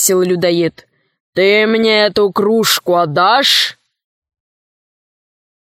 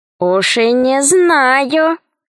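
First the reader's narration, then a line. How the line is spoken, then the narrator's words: Honeyed female voice. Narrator (Russian): сказала она медовым голосом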